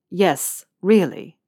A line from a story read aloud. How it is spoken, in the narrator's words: Malfoy said firmly